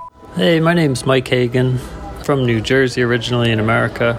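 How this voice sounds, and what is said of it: American accent, New Jersey. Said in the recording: “a bona fide American”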